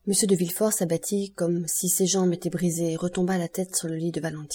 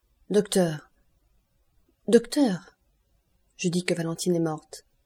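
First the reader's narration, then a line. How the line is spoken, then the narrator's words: Solemn, terrible voice. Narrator (French): répondit d'Avrigny d'une voix solennelle et terrible dans sa solennité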